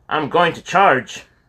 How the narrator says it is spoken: Kyle would holler

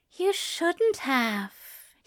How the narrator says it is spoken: he breathed

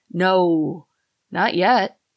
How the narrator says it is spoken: replied in a reluctant groan

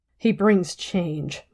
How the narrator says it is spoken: Melaine whispered harshly into the steam

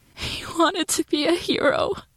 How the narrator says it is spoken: she sobbed

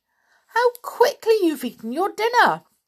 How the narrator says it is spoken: cried Aunt Jane

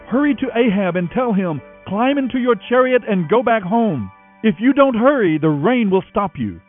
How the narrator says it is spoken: Elijah shouted

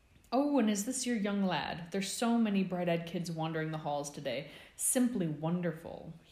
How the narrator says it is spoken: he exclaimed with an overenthusiastic grin

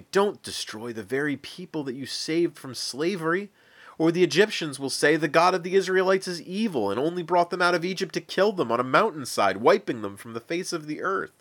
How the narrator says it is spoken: pleaded

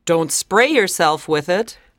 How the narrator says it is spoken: Barbara said, laughing

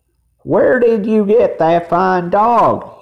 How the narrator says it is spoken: he cried

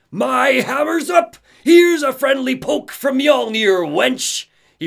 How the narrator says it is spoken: Tor grinned madly and shouted

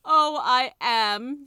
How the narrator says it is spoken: the tiger skin wailed

